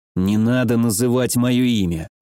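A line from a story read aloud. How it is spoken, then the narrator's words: Grumbled. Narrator (Russian): проворчал я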